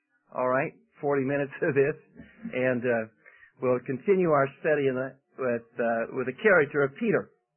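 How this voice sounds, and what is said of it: Lowered, congested voice. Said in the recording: “I'm taking medication to lower my voice. ... comes a runny nose”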